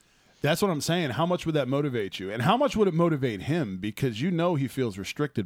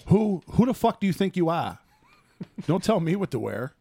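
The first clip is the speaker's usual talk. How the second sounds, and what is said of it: Put-on Boston accent. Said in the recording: “He just randomly busts out Boston accent.”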